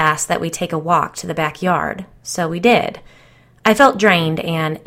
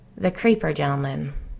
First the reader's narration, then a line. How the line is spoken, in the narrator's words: she said quietly